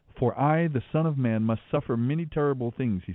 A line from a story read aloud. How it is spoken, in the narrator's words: said